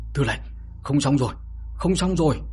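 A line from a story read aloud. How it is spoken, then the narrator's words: Panting loud cry. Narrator (Vietnamese): Phó Lý Quan vừa thở hổn hển vừa kêu lớn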